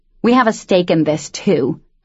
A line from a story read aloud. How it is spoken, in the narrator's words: Molly said roughly